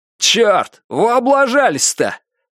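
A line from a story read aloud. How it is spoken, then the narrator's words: Displeased shout. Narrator (Russian): недовольно выкрикнул кто-то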